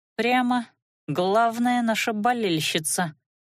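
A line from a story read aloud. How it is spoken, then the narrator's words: Ironic snort, half-elf. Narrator (Russian): иронически хмыкнула полуэльфийка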